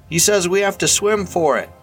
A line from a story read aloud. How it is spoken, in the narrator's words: Leroy ... shouting to be heard, and said